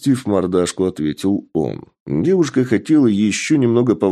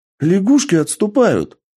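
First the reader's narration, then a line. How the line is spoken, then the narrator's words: Exclamation. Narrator (Russian): Воскликнула Екатерина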